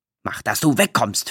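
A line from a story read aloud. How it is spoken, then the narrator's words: Starting to bellow. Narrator (German): fing an zu brüllen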